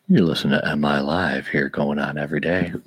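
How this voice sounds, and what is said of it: Sexy late-night DJ radio voice. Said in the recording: “the sexy late night DJ radio voice”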